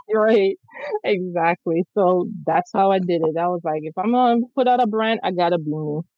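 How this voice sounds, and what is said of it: Noticeable regional accent. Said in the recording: “you heard the accent?”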